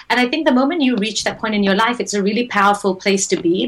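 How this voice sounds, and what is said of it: Speaker's own distinctive accent. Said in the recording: “I have a funny accent.”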